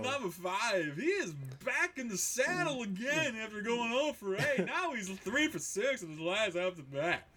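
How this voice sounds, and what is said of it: Poor impression of a baseball announcer. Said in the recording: “my awful Harry Carey impression.”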